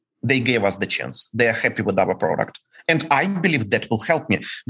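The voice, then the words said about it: Ukrainian-accented English. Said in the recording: “the guy with my accent ... for all the bankers we are russians while we are ukrainians”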